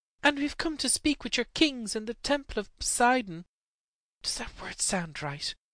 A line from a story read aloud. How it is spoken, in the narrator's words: he whispered anxiously